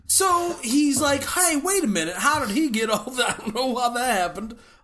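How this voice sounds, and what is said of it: A weird put-on accent. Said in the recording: “Went into a weird accent there”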